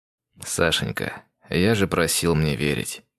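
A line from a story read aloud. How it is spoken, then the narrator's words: Soft male voice. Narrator (Russian): Соло тихонько сказал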